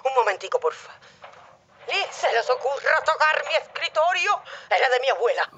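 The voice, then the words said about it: Shouting at someone else. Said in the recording (Spanish): “¿Quién le estás gritando?”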